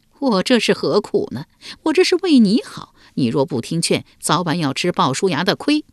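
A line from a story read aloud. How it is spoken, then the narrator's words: Wry, bitter laugh. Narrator (Chinese): 树雕苦笑道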